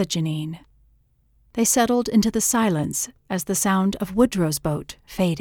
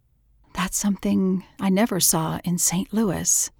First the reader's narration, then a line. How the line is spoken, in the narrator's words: she murmured